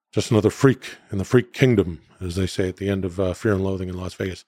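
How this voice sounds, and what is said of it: Robin Williams as Hunter S. Thompson impression. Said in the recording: “That was a very good Robin Williams impersonation. That was my Robin Williams as Johnny Depp as Hunter S. Thompson.”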